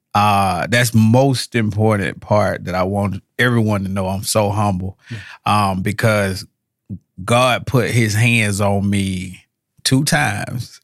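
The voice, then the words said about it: Southern country accent. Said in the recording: “I'm a country boy. You can hear it in my voice.”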